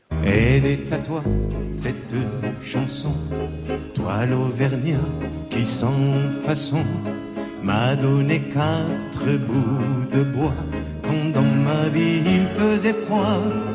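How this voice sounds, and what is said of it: Pied-noir French accent while singing. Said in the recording (French): “avec son accent pied noir”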